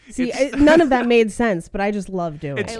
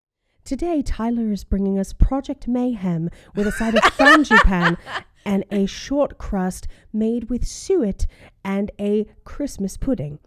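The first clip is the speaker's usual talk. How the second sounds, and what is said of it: British baking show presenter voice. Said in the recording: “Great British Bake Off impression”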